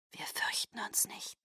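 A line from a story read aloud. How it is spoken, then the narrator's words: Several voices breathing softly. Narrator (German): hauchten sie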